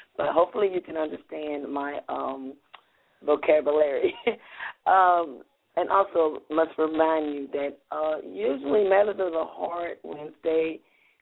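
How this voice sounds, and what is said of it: Raspy, hoarse voice. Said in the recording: “my raspy voice. My voice is trying to come back, but it's not completely back.”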